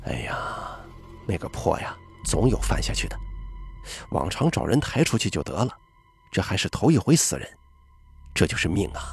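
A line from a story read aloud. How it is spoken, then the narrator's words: Muttering. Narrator (Chinese): 老爷提到这事还在嘀咕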